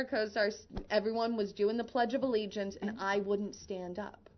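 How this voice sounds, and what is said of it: Usual voice. Nothing is said of it.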